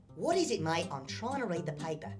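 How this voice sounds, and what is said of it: Cartoon character with New Zealand accent. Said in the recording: “What happened to your voice, mate? ... I'm from freaking New Zealand. ... that explains the accent”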